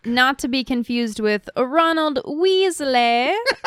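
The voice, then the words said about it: Put-on British accent. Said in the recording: “the old terrible British accent ... The really good English accent.”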